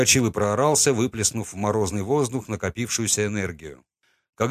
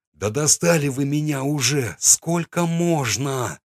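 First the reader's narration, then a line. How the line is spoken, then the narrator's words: Exasperated exhale. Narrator (Russian): выдохнул я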